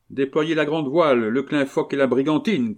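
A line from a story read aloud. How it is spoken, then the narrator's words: Shouted command. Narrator (French): cria le capitaine Herbel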